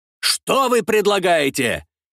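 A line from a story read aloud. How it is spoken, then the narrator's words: Commandant shouting. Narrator (Russian): кричал на французского советника комендант крепости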